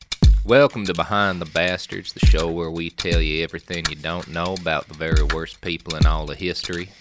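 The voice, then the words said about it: Exaggerated deep southern US accent. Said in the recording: “my accent, ... I am a southern man ... That's deep south me. I'm a southern gentleman. ... southern farmer to southern lawyer in a white linen suit”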